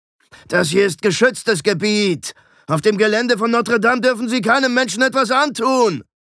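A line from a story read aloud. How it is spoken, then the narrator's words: Bellowing. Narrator (German): brüllte ihm Alberich entgegen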